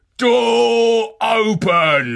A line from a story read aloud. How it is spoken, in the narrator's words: a voice within that bellowed